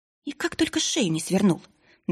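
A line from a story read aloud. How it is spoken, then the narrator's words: Annoyed whisper. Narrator (Russian): досадливо прошептала она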